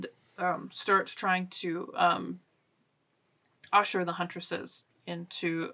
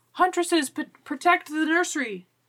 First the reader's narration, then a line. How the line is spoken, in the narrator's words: The grandmothers, the Kulnani's children, shout